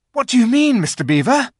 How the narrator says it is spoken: panted Peter, as they all scrambled up the steep bank of the valley together

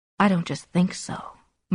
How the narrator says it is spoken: Martha said calmly

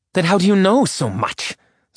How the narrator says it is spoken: Zerelda snapped

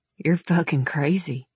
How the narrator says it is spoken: he mumbled, but there was no heat in his words

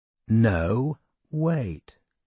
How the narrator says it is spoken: she said slowly

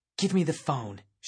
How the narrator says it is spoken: she said, her voice an angry hiss

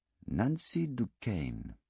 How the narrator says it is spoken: Poirot said very slowly and deliberately

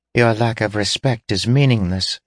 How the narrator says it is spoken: said the little girl calmly

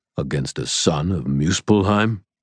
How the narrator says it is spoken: rumbled the Jotun

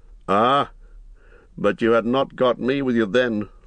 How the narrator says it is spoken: laughed Strider

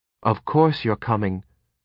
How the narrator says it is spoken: Kyber Elysidil said quietly

